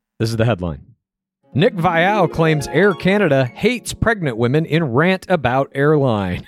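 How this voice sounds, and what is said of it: Mock news anchor voice. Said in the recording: “I'm going to do it in a news fashion. I'm going to put on my best newsman voice”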